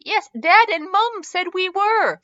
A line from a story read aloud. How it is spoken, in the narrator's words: Leo said triumphantly